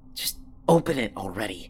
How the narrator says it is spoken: I hissed

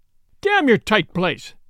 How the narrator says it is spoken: cried the young man

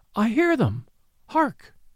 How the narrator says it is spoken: she cried

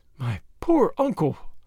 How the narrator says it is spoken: her voice faltered

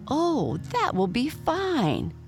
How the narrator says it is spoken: cried the goat

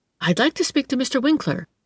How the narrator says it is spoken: she said eagerly

